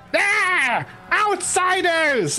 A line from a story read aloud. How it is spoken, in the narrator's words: the kobold in the middle suddenly screams out